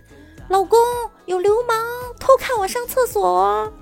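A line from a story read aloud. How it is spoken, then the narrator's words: Woman shouting. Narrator (Chinese): 美女大喊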